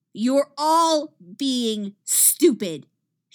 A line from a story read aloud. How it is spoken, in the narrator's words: she roars